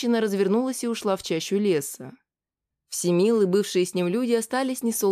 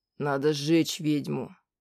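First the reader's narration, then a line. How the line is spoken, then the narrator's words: Muttered. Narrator (Russian): пробормотал Всемил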